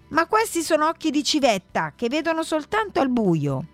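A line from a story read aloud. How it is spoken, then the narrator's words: Girl shouting. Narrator (Italian): La ragazza si mise a gridare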